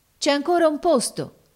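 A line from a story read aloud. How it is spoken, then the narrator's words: Sailors shouting. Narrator (Italian): gridarono allora i marinai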